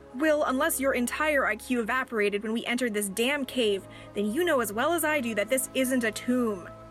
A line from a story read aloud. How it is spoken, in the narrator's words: Beverly shouted after him